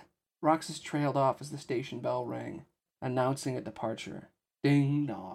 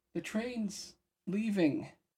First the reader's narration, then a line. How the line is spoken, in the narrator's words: Olette said mournfully